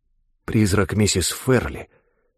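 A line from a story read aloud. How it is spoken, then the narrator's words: Whispered reply. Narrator (Russian): отвечал Джекоб шепотом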